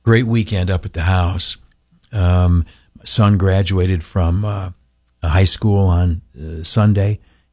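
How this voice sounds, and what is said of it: Weak, failing voice. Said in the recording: “My voice is kind of heading for the door.”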